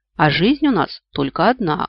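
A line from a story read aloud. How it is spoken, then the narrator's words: Wry snort. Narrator (Russian): хмыкнул Вик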